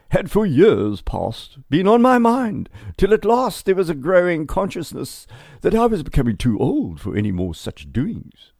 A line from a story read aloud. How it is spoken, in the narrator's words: he wrote pompously